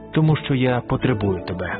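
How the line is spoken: Plain, man. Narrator (Ukrainian): відповів чоловік

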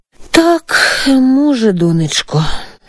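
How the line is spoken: Sighing mother. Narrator (Ukrainian): зітхнула мати

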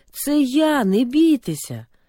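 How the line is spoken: Loud, shouting over wind. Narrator (Ukrainian): Ісус ... перекрикуючи виття вітру, голосно сказав

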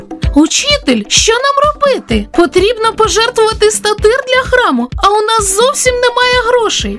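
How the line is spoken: Exclaiming. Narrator (Ukrainian): вигукнув Петро

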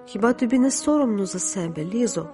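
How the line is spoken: Sad voice. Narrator (Ukrainian): Паула сказала сумним голосом

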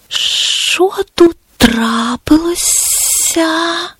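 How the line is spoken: Quiet hiss. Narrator (Ukrainian): Тихий голос прошипів

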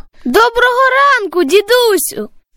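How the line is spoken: Boy shouting from afar. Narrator (Ukrainian): Здалеку закричав хлопчик

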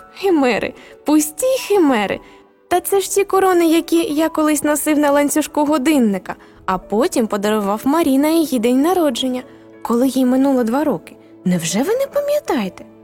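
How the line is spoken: Laughing exclamation. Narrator (Ukrainian): хрещений засміявся і вигукнув

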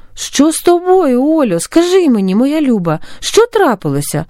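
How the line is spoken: Exclaimed, worried. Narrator (Ukrainian): вигукнула стурбована Саша

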